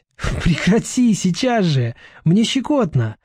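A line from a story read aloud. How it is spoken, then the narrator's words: Ticklish squeal. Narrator (Russian): взвизгнул принц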